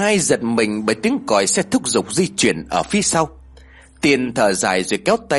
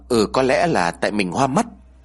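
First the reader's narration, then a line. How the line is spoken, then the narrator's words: Stammering. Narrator (Vietnamese): Lý ấp úng nói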